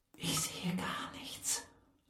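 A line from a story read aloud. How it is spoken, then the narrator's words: Breathy whisper. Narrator (German): hauchte Lega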